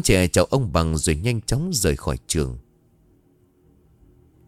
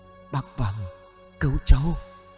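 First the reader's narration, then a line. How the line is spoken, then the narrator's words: Weak moaning. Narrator (Vietnamese): Cái bóng khẽ cất lên giọng rên rỉ yếu ớt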